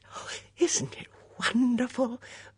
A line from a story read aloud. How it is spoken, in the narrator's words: breathed the female voice